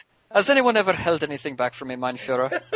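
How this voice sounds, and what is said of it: Put-on German accent drifting Irish. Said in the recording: “you went a little Irish there ... my Irish German impersonation”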